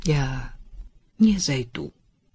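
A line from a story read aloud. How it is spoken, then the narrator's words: Soft. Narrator (Russian): мягко произнес Роман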